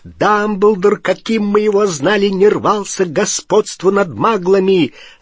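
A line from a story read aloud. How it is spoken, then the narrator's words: Furious loud yelling. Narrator (Russian): заорал Гарри так, что несколько черных дроздов сорвались с деревьев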